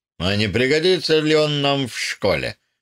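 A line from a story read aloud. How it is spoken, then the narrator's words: Plain. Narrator (Russian): спросил Хаусон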